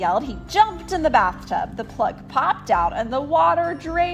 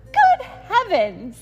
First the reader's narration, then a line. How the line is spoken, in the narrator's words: she cried